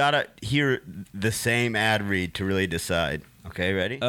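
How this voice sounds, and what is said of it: Usual voice. Nothing is said of it.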